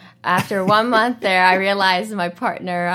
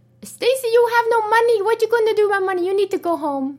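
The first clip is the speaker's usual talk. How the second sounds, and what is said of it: Put-on Indonesian accent. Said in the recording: “that's her Indonesian accent”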